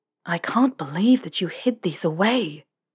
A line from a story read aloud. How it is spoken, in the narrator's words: Harry breathed